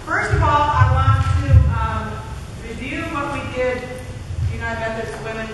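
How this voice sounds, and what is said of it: Projected teacher voice. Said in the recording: “I'll use my teacher voice. ... I have a teacher voice.”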